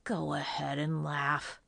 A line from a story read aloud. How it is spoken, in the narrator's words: Johnny grumbled